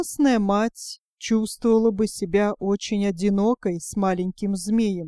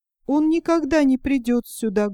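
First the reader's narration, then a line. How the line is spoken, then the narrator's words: Mother's sorrowful sigh. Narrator (Russian): горестно вздохнула мать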